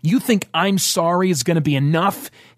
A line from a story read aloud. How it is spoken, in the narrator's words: he yelled